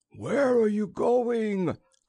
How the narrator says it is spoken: cried the Umlotuan

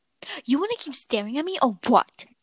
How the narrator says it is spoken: I snapped

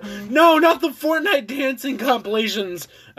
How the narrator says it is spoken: I screamed

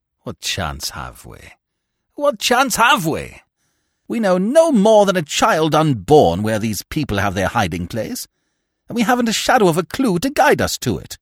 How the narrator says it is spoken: I interrupted bitterly

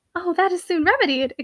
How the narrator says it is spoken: exclaimed Shirley

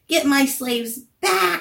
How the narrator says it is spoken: he screeched

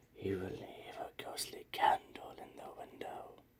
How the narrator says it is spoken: Grandma would say in a hushed voice

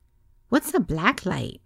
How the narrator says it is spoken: Candy said sweetly

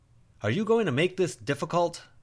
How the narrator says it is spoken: Timon called out

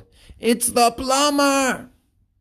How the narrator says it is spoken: the parrot yelled

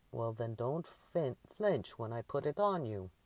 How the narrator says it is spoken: the old Finnish woman growled

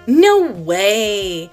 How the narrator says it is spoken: sneered Spike

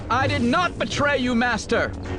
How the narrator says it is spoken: she shouted, trying to make Bane see reason

